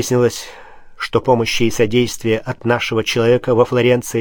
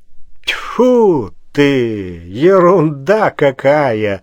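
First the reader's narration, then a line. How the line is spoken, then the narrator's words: Loud relieved sigh. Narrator (Russian): шумно, облегченно вздохнул барон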